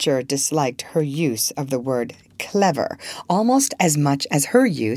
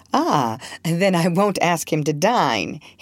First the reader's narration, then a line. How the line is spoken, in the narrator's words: he concluded with a laugh